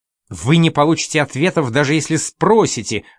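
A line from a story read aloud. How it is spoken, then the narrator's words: Angry shout. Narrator (Russian): закричала она сердито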